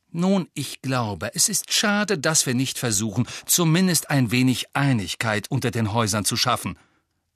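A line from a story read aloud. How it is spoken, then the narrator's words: Curt reply. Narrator (German): erwiderte Hermine schroff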